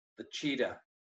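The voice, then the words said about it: Put-on New York accent. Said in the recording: “That's my New York accent.”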